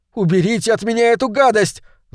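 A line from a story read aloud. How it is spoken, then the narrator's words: Yelling. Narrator (Russian): заорал я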